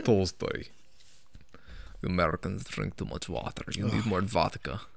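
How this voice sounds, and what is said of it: Put-on Russian accent. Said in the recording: “I can't do an accent. Can't you speak Russian? ... That was pretty good.”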